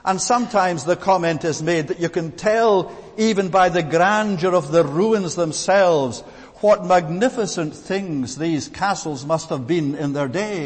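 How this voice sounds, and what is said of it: Scottish accent. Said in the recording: “by my accent, I'm from the land of Scotland”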